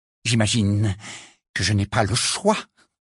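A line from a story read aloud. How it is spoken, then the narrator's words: Slightly trembling voice. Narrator (French): dit Rita d'une voix légèrement tremblante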